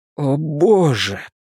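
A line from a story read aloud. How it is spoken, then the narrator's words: Near groan. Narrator (Russian): почти простонал Луис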